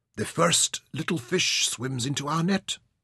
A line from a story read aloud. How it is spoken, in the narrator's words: he murmured